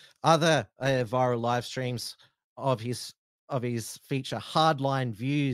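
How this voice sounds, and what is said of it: Usual voice. Nothing is said of it.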